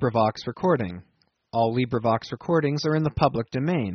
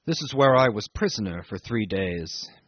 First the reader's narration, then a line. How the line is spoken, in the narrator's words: he murmured to me